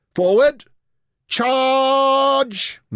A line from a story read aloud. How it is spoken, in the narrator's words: Merrin bellowed